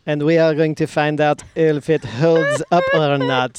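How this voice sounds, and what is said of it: Bad put-on French accent. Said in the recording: “This is my bad French accent”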